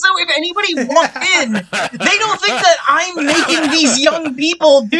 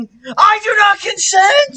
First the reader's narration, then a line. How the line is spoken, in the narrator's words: shouting